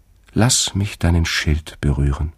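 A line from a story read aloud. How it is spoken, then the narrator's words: Gentle. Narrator (German): sagte sie sanft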